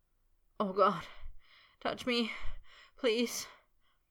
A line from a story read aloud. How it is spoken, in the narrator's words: Potter moaned